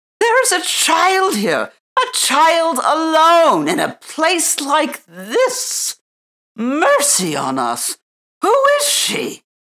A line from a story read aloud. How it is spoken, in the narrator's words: he called out